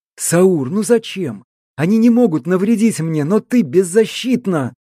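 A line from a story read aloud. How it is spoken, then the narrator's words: Desperate exclamation. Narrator (Russian): воскликнул я в отчаянии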